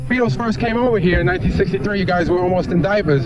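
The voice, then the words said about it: Long Island accent. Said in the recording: “With a Long Island accent”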